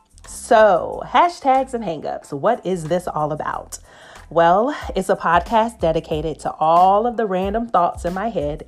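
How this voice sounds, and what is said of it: Southern American accent. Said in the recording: “Atlanta, GA will always be home and is the source of my Southern accent that will inevitably make an appearance”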